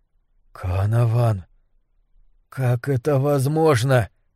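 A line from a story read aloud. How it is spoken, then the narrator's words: Forced-out words. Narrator (Russian): наконец выдавил я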